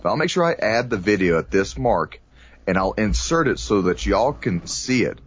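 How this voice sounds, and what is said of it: Texas accent. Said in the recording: “There's my Texas accent, y'all.”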